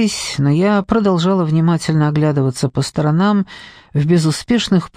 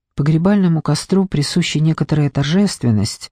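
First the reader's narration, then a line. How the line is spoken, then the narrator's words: Soft tone. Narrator (Russian): сказал он мягким тоном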